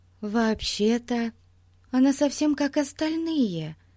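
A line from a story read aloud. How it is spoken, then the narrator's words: Uncertain. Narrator (Russian): неуверенно произнесла Дейзи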